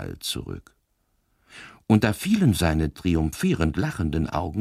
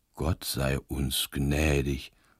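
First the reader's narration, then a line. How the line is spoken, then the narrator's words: Murmuring. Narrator (German): murmelte Pater Braun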